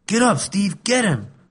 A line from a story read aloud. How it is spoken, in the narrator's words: yelled